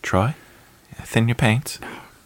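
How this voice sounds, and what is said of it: Imitates a British-accented voice. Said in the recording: “in his British accent”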